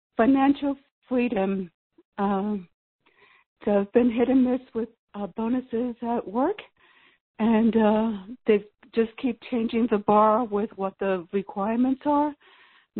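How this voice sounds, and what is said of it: Hoarse, failing voice. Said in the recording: “I'm losing my voice ... You're so excited you're losing your voice.”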